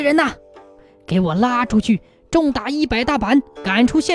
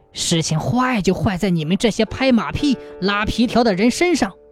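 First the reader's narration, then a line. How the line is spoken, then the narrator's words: Through gritted teeth. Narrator (Chinese): 县太爷不由得咬牙说道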